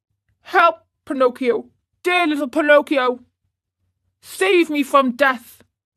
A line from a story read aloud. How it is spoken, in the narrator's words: cries of suffering